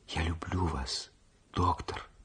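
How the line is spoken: Whisper. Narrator (Russian): прошептала она

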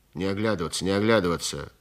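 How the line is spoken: Guard grumbling. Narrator (Russian): проворчал задний конвойный

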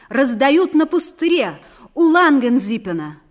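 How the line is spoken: Said loudly. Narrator (Russian): громко сказал

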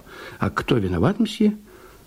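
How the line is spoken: Clerk whispering. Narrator (Russian): Приказчик … прошептал

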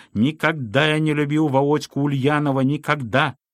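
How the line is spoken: Heated tenor shouting. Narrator (Russian): Разгорячившись в разговоре, кричал тенорком

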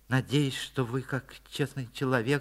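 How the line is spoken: Embarrassed mumbling. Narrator (Russian): забормотал Лапкин краснее

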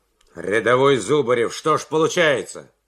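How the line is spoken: Stern question. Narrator (Russian): строго спросил майор

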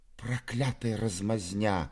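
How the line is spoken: Whisper. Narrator (Russian): прошептал Мизинчиков

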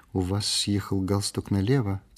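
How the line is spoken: Quiet remark. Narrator (Russian): тихо заметила она

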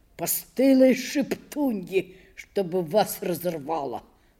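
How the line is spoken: Muttering. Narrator (Russian): бормотал он

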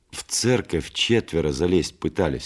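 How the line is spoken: Plain. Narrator (Russian): сказал председатель

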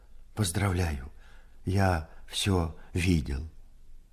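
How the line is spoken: Trembling voice. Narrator (Russian): Скатерщиков дрогнувшим голосом сказал

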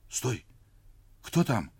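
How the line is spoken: Frightened girl's whisper. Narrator (Russian): испуганно прошептала девочка

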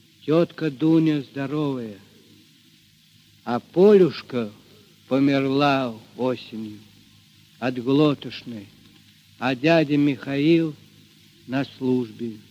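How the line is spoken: Quiet. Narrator (Russian): Мишатка тихо ответил

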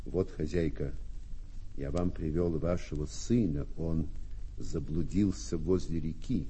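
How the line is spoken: Embarrassed mumbling worker. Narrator (Russian): Рабочий смутился и пробормотал

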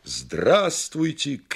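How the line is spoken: Shouted greeting. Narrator (Russian): крикнул бульвару Приморскому, Графской пристани

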